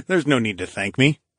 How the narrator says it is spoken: I chuckled

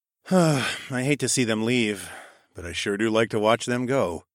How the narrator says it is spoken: I sighed to Horace

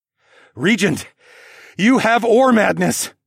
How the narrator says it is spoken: I screamed over the gale of the wind

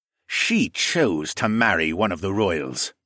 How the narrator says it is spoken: the leader snorted

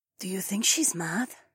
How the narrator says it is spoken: Zoe whispered to me

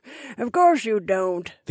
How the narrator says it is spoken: the information broker laughed

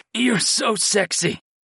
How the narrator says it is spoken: I groaned

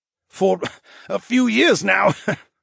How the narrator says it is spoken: the Tiburon chuckled

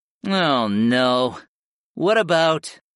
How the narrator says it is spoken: familiar whined

